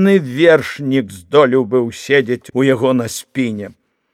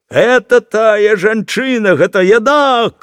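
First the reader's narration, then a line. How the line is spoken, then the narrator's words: Shouting fat man. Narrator (Belarusian): крычаў тоўсты чалавек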